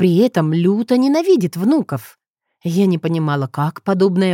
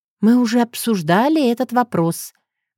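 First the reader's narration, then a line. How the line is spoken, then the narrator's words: Sighing. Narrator (Russian): вздохнула я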